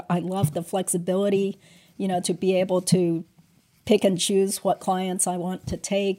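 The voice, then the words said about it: Sick, slightly strange-sounding voice. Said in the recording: “right now I'm sick. So I'm sorry, I sound a little weird. I'm sick.”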